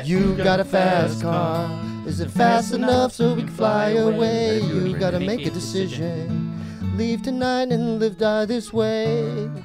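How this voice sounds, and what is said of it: Strained, pained-sounding singing. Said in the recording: “You sound like a burn victim trying to give driving directions to someone ... you sound like somebody with severe burns ... Like who's in a full body cast.”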